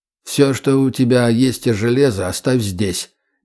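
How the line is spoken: Quiet command. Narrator (Russian): негромко скомандовал Бич

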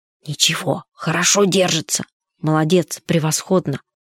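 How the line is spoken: Whisper. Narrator (Russian): он шепотом сказал кому-то

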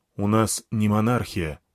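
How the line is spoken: Calm objection. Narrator (Russian): спокойно возразил Крион

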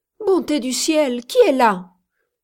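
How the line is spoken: Woman exclaiming. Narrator (French): s'écria une femme

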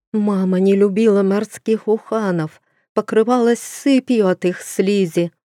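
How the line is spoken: Moan. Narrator (Russian): простонала душа графини Литы

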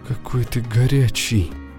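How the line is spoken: Tired, happy breath. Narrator (Russian): выдохнула усталая и счастливая Майер

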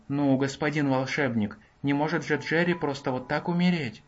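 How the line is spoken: Brute's objection. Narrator (Russian): возразил бугай

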